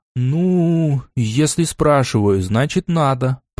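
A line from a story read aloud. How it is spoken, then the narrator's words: Drawling. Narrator (Russian): протянул я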